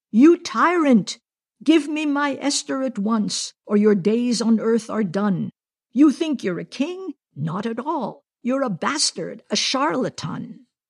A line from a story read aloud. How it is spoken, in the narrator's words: a wild young man wielding a dagger and shouting